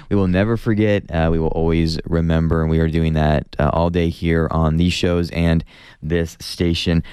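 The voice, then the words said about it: Hoarse, throaty voice. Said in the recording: “Excuse me. I have a frog in my throat.”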